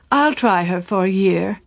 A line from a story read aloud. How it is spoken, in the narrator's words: Peniston, with a sigh, announced